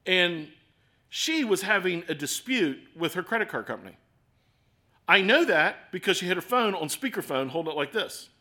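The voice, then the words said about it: Baltimore accent. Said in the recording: “my wife makes fun of me, because sometimes my Baltimore accent”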